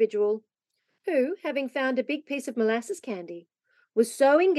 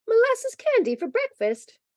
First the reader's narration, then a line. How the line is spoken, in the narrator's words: cried Polly laughingly